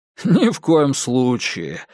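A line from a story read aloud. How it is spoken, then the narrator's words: Laughing. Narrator (Russian): рассмеялся Диккенс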